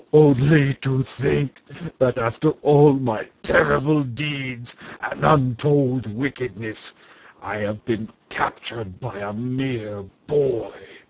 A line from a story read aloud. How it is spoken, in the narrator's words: sobbed Wul-Tekim miserably